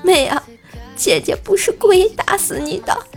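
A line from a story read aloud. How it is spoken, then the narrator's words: Sister crying. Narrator (Chinese): 姐边哭边说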